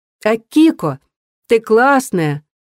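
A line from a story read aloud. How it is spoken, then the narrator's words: Joyful shout. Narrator (Russian): радостно закричала Вакаба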